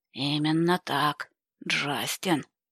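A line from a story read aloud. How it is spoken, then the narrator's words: Tense grumble. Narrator (Russian): напряженно проворчал он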